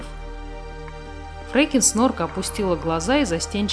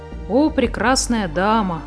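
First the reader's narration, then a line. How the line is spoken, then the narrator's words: Sighing. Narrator (Russian): вздохнула Муми-мама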